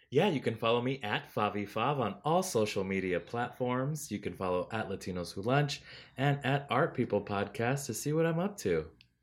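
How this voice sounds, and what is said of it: Robotic white announcer voice. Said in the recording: “God, you fucking like robot. ... my white announcer voice? ... Yeah, you killed it.”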